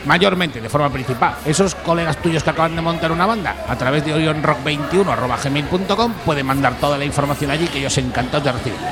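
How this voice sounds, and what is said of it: Madrid Spanish accent. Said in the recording (Spanish): “tienes un acento de Madrid”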